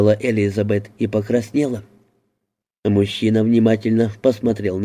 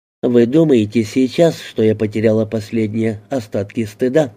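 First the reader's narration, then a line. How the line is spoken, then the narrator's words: Plain. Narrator (Russian): спросила она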